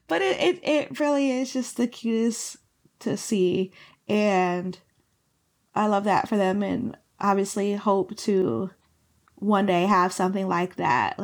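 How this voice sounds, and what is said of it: Hoarse, failing voice. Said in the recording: “Am I losing my voice? I'm losing my voice.”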